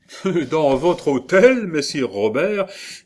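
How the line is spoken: Laughing, good-humored. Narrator (French): dit en riant Benvenuto Cellini, dont la bonne humeur revenait à mesure qu'il cessait de craindre pour Ascanio

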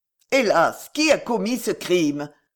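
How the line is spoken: Pious man exclaiming. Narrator (French): s'écria un chrétien pieux

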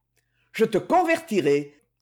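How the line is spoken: Shouted. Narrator (French): cria-t-il

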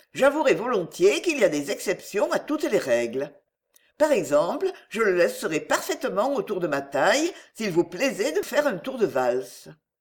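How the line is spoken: Cheerful continuation. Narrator (French): poursuivit gaiement Émilie

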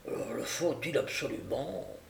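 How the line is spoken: Muffled voice. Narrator (French): demanda l'autre d'une voix étouffée

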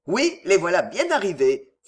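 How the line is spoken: Delighted exclamation. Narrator (French): s'écria Lord Anthony, enchanté

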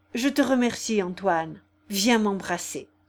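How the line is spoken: Trembling voice. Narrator (French): lui dit-il d'une voix tremblante

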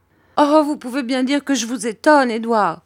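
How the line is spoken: Mother exclaiming. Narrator (French): s'écria ma mère

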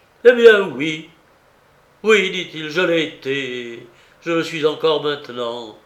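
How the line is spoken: Desperate exclamation. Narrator (French): s'écria-t-il avec un vrai désespoir cette fois

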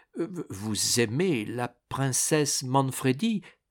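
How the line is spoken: Stammered. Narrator (French): balbutia

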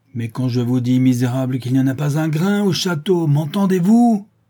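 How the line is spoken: Furious shout. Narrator (French): s'écria-t-il d'une voix furieuse

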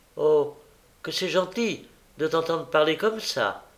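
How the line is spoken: Exclaimed. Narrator (French): s'écria Charlotte

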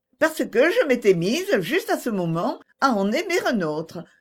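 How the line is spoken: Laughing. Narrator (French): répondit Agnès en riant

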